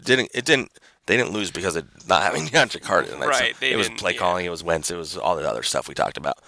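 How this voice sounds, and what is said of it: Hoarse, fading voice. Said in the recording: “I'm losing my voice. It sounds like.”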